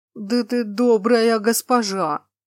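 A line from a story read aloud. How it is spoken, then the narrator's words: Low gurgling sobbing mutter. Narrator (Russian): низким булькающим голосом пробормотал циклоп и всхлипнул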